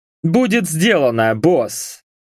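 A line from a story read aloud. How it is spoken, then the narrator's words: Smirking grunt. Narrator (Russian): хмыкнул Бак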